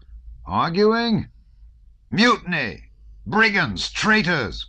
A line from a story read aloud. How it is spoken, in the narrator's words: cried Rostov unmeaningly, in a voice not his own